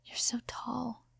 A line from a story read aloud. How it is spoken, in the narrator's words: Kaminari whispered